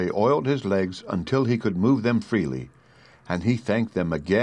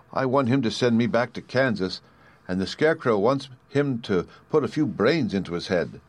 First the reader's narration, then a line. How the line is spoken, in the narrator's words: she replied